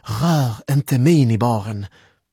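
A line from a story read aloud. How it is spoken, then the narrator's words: Exclaimed. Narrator (Swedish): utbrast Malin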